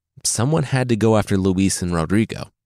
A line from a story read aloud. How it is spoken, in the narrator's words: he said